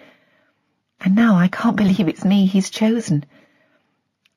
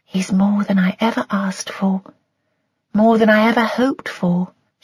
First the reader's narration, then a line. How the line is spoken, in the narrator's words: she said dreamily